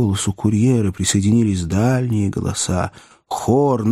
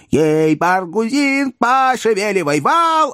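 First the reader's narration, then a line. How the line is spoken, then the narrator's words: Yelling. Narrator (Russian): орал курьер на лестнице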